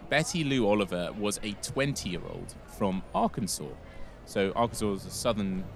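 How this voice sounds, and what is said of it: Posh English accent. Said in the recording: “You're saying it far too posh in English ... I'm sorry for my own accent.”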